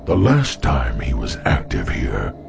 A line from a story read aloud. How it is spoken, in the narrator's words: whispered Turl